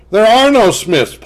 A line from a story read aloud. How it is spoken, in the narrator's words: Paul bellowed